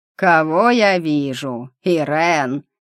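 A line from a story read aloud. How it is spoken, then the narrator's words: Hoarse voice. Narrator (Russian): Хриплый голос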